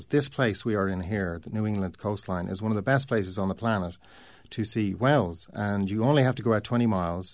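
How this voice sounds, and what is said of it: Irish accent. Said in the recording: “you can probably hear my accent, I come from Ireland”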